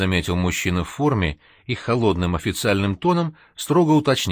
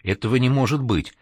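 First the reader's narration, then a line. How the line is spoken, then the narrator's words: Frightened, confused, forced words. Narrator (Russian): Испуганно оглядевшись, он растерянно выдавил из себя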